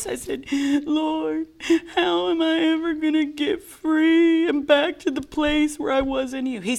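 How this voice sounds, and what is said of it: Whiny voice. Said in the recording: “in that same whiny voice... In the same whiny voice”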